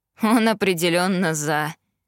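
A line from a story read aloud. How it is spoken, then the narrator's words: Pleased snort. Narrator (Russian): довольно хмыкнул Итан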